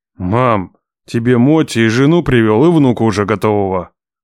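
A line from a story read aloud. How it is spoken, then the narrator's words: Growl. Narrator (Russian): прорычал я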